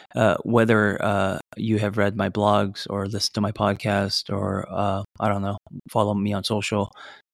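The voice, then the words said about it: Voice going, strained and hoarse. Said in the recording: “speaking of voice, I'm losing mine this morning.”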